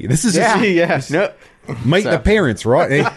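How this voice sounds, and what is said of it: Bad put-on accent. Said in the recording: “That was a bad accent right there.”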